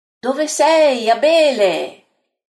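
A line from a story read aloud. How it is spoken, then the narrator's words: Calling voice. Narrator (Italian): grida una voce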